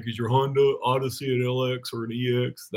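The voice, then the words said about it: Impression of a store counter clerk. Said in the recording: “my impersonation of a dude behind the counter at a local chain store”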